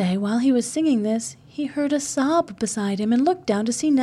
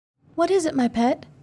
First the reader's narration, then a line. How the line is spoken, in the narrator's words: he asked anxiously